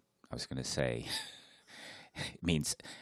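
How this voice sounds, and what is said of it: Usual voice. Nothing is said of it.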